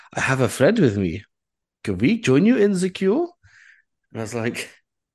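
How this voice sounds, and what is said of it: Put-on German accent. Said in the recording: “Not as inappropriate as a German accent.”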